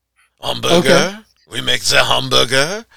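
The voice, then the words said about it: Exaggerated put-on French accent. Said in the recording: “my French accent is terrible ... I patterned my French accent off of was Jacques Pepin ... It's Jacques with a little bit of, like, the mic intonation with Jacques' pronunciation ... the RD French man accent”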